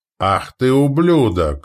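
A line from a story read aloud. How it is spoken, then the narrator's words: Furious roar. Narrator (Russian): взревел Вереск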